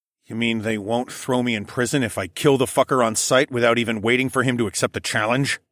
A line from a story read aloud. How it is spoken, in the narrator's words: I growled sarcastically